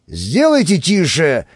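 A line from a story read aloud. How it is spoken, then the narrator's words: Growl. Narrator (Russian): рыкнул руководитель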